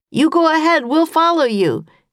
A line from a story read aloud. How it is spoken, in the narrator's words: Jack shouted